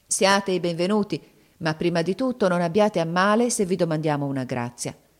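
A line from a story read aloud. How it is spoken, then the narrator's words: Grave, serious tone. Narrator (Italian): disse loro con tuono grave e serio come a lei conveniva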